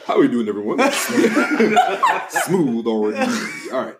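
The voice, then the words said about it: Smooth radio announcer voice. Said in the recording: “You got a radio voice.”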